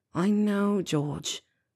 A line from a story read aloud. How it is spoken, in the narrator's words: Fred muttered